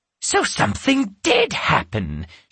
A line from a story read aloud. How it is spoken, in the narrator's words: she exclaimed